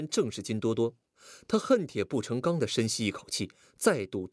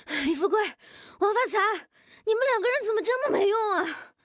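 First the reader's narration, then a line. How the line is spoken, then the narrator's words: Exasperated roar. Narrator (Chinese): 有些无奈地 换了口气，大吼道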